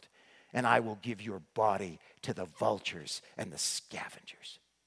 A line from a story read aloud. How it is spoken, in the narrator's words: shouted, growled